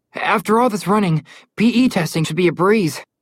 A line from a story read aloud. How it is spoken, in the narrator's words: Connor said through heavy wheezes